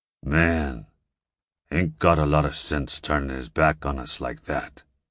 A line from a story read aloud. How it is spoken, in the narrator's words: growled the giant